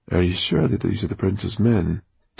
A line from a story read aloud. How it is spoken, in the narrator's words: Dustfinger asked Roxanne in an undertone